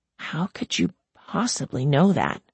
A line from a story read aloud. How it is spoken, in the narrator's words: She whispered